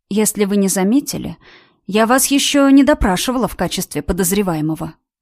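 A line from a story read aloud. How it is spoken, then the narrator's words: Calm statement. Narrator (Russian): произнесла спокойно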